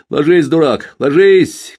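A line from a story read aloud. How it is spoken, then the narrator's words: Group shouting. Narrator (Russian): крикнули бойцы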